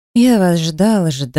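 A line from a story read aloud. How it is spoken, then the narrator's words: Sighing. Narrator (Russian): вздохнул Ксавьер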